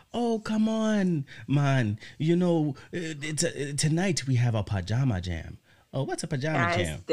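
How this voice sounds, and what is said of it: Put-on Jamaican accent. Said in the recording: “I'm going to try to put on Winston's voice ... His terrible accent ... This is really how Brandon tries to imitate our Jamaican friends”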